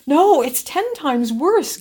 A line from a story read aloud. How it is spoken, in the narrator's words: gasped Alexina